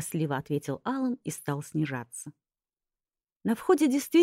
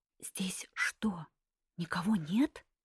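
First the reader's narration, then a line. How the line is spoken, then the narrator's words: Whispered female question. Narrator (Russian): шепотом спросила я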